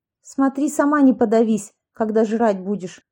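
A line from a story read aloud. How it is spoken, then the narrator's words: Snapped. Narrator (Russian): огрызнулась Аня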